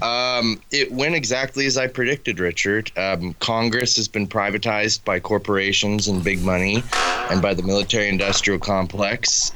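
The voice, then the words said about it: Voice sounds a little messed up. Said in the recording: “my voice is also a little messed up too”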